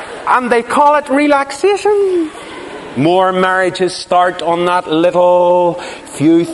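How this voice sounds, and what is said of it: Usual voice. Nothing is said of it.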